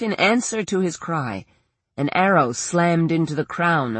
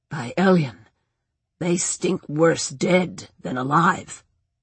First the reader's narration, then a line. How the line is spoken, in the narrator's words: muttered